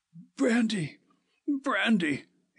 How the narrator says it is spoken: he gasped

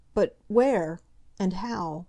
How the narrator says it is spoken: faltered Mrs

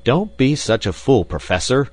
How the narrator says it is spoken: I cried

